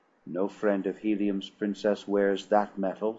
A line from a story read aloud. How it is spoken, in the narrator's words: replied